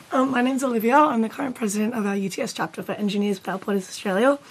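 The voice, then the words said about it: Hoarse, strained voice. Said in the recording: “I've just lost my voice.”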